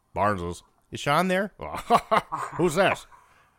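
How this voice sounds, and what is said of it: Deep bass phone-answering voice imitation. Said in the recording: “phone voice ... That's a very good imitation of him, actually ... he had a hell of a voice ... He was a bass”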